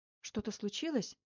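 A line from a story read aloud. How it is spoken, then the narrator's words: Slightly frightened question. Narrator (Russian): немного испуганно спросила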